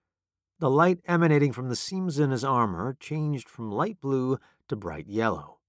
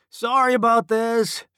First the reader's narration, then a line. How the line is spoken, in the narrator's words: Phoenix yelled to the construct